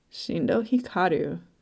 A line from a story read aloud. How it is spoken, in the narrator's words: Kuwabara mutters under his breath